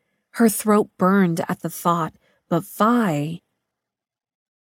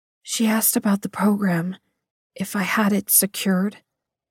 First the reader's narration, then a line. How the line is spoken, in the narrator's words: Mary whispered